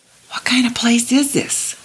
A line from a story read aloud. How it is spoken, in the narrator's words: Coralie whispered